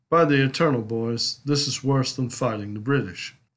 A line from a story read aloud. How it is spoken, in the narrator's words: Jackson declared